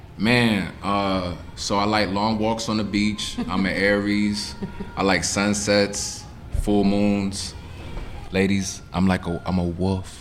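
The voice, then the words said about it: Put-on sexy voice. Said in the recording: “It's my sexy voice.”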